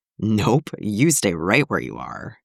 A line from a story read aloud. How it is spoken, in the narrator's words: he growled without heat